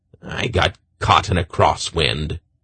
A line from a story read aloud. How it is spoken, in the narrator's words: he growled